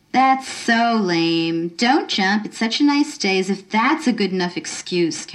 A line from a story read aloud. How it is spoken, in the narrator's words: Carolyn sneered